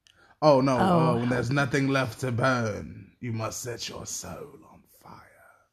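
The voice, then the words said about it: Deep put-on British accent. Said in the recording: “British accent ... That's your deep though ... my Bridgerton accent”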